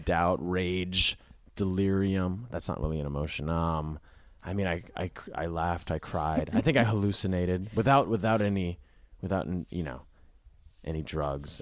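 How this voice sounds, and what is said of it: Flat monotone low-key voice. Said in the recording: “I'm not really speaking with a lot of intonation ... monotone. I'm like, I'm not having a lot of expression in my voice ... the bedroom voice that I use when I do podcasts”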